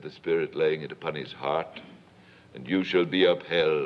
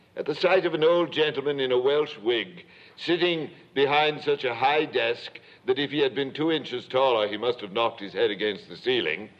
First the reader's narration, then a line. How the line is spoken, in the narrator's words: Scrooge cried in great excitement